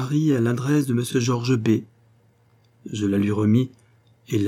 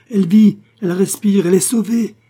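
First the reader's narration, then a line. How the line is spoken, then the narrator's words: Exclaiming. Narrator (French): s'écria-t-il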